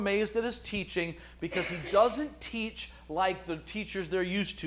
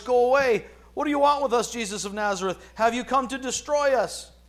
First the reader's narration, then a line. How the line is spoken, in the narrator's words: He cried out at the top of his voice